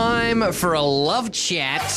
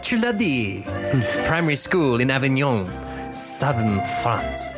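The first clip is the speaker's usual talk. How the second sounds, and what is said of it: Put-on French accent. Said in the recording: “you're going to be doing your French accent all day”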